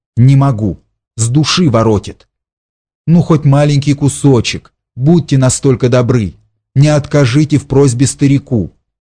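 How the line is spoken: Quiet, frightened. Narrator (Russian): сказала тихо, с каким-то испугом

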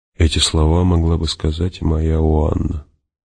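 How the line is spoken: Mutter. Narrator (Russian): пробормотал он

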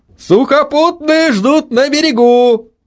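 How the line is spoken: Shouting. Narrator (Russian): Прокричал Митя

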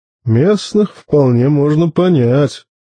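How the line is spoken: Grumble. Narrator (Russian): буркнул рассудительный маэстро Карл

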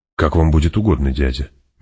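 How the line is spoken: Soft gentle voice. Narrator (Russian): мягко сказал Фейдраута

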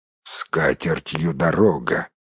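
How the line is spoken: Grumbling gnome. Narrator (Russian): проворчал кто-то из гномов

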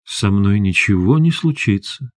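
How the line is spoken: Soft. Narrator (Russian): мягко сказал Максим

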